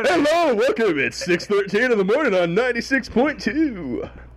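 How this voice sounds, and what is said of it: Early-morning radio DJ announcer voice. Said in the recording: “you're a DJ from an early morning radio ... announcer voice”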